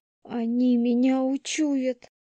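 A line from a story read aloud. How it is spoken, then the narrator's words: Lost moaning. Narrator (Russian): Потеряно простонала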